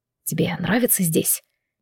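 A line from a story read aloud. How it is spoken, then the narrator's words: Sudden whisper. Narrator (Russian): неожиданно прошептал Алан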